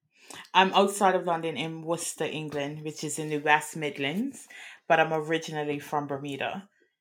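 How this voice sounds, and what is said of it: Speaks with a non-American accent. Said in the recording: “they're here in an accent.”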